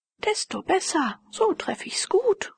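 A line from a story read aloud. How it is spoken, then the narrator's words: Exclaiming. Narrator (German): rief Herr von Tulpen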